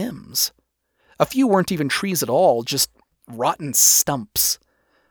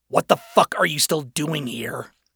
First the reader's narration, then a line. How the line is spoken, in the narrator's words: He spat